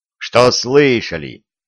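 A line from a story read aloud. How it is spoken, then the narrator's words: Angry growl. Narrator (Russian): сердито рыкнул на них Виталий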